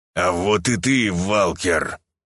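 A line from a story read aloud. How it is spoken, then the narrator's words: Angry, through gritted teeth. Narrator (Russian): гневно процедил Дахён сквозь зубы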